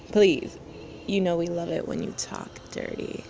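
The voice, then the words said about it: Sexy, seductive voice. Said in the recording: “that's my sexy voice”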